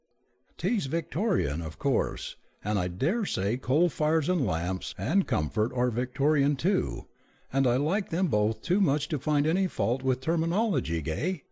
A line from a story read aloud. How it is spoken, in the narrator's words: Sylvia said cheerfully